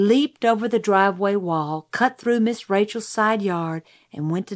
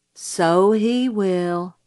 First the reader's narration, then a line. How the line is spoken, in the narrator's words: said Jim gloomily